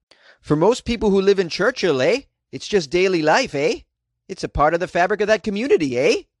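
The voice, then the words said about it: Put-on Canadian accent. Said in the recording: “So I gave him a Canadian accent.”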